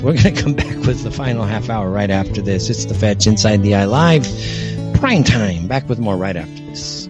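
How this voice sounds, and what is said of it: Breathless, out-of-breath speech. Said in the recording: “I'm out of breath, man. ... I'm out of breath. ... I'm still out of breath,”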